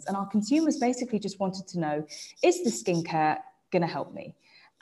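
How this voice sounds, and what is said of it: English accent. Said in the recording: “that's my English accent coming out”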